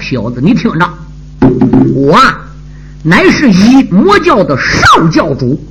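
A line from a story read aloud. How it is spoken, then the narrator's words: Furious, through gritted teeth. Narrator (Chinese): 那少年……脸上顿现杀机，气得他坐在马身上簌簌而抖，咬牙切齿的道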